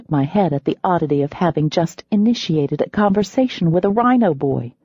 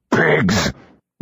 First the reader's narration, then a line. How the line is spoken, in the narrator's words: one of them grunted